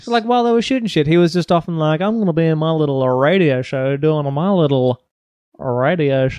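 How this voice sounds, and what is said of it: Exaggerated radio announcer voice. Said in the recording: “Why are you doing the radio show voice? ... this is my radio voice ... this is your classic radio show voice ... which is a pretty good radio voice”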